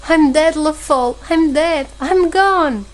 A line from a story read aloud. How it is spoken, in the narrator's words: He moaned piteously